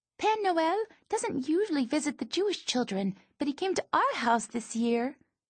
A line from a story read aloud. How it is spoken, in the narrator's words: chirps